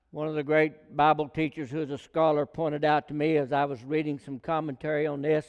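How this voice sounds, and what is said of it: Regional rural American accent. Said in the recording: “I've got what they call a Sequoia County accent, and I don't try to hide that”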